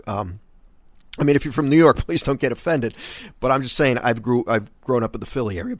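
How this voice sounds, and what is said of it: New York-sounding American accent. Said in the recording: “I think that's more of a New York accent than it is a Philly accent... I think my accent is more New York than it is Philly... I have more of a New York pronunciation for the word water and coffee”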